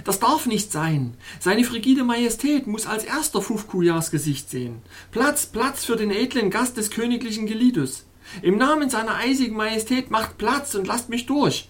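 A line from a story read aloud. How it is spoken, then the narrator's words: Exclamation. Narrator (German): rief ich aus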